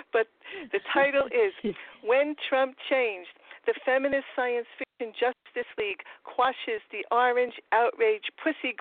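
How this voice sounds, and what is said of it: Queens New York accent. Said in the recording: “my Trump Queens accent because I'm from Forest Hills, Queens ... I speak with the same accent that he does”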